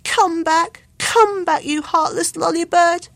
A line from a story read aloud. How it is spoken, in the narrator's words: he cried into the phone